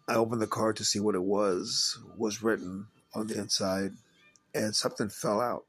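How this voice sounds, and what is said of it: Hoarse, strained voice. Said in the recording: “I'm losing my voice, it seems like.”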